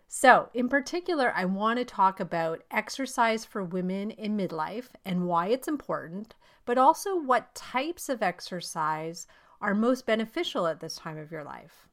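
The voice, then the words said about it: Voice slightly off from a cold. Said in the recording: “I have a bit of a cold, so my voice might be a little off today”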